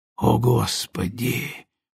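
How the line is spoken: Breathed out nearby. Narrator (Russian): выдохнул рядом со мной Пол

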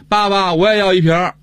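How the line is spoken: Child calling out. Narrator (Chinese): 你这孩子也喊着

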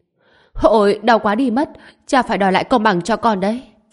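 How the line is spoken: Sudden pained shout. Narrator (Vietnamese): Tào Minh Nghiệp thấy ánh mắt cha mình lập tức hét lên

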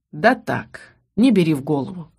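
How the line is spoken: Dismissive snort. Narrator (Russian): хмыкнул Ас

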